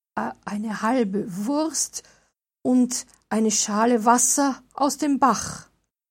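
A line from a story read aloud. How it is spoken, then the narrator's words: Trembling answer. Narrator (German): antwortete Bernhard mit zittriger Stimme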